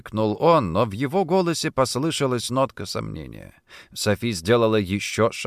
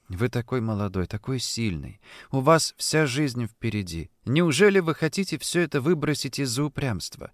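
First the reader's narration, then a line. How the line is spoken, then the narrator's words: Soft voice. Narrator (Russian): она мягким голосом заговорила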